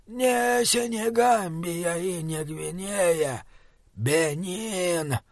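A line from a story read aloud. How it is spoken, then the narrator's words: Groaned. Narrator (Russian): простонал он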